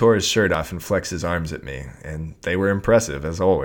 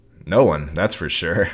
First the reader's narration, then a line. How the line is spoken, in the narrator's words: I laughed